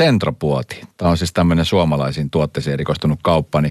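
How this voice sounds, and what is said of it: Usual voice. Nothing is said of it.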